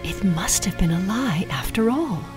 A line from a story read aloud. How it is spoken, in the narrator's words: she whispered